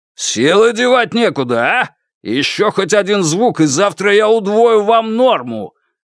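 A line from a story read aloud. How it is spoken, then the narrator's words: Barked angrily. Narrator (Russian): рявкнул охранник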